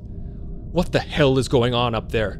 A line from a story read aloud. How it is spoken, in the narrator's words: Sisko roared